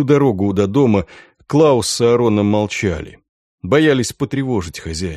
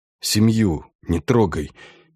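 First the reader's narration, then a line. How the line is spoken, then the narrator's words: Hoarse pleading. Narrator (Russian): севшим голосом попросил человек, по приказу которого была убита Инга и их ребенок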